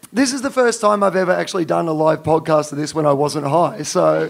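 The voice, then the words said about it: Croaky, hoarse voice. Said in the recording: “I'm a little croaky ... I started losing my voice ... Normally I have a high voice”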